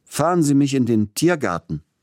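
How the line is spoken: Called out. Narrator (German): rief er dem Kutscher zu

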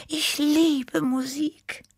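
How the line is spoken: Sighing. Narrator (German): seufzte Tippi

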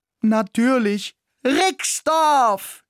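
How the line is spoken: Excited shout. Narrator (German): schrie ich begeistert

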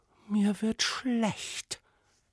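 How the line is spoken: Princess whispering. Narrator (German): wisperte die Prinzessin

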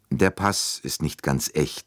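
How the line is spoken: Plain. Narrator (German): sagte er

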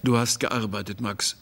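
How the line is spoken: Policeman speaking calmly. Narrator (German): sagte der Polizeiposten ruhig

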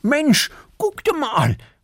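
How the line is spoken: Calling out. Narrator (German): ruft Erik

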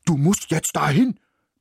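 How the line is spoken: Barking. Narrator (German): bellte

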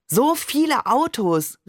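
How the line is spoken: Call. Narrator (German): rief ich

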